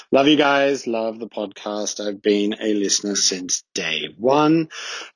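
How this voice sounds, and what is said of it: Australian accent. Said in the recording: “I'm originally Australian. If you can't tell, this is not a Swiss accent.”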